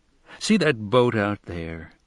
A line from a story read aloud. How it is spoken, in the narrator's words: said in the old pleasant voice of a conspirator for pleasure, mischief, profit, and delight